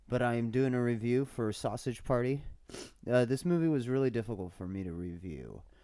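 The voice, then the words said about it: Congested voice with a cold. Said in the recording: “sorry for my voice, and if you hear any gross noises, because I have a cold.”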